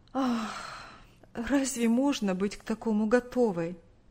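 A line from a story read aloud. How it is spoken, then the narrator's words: Sighing reply. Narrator (Russian): Вздохнув, ответила мать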